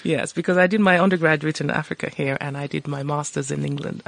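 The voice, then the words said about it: Mixed, hard-to-place accent. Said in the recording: “my accent is totally confused. My accent is completely unique to me.”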